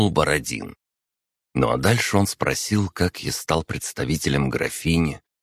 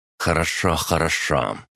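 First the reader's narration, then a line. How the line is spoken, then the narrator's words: Grumbling countess. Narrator (Russian): проворчала графиня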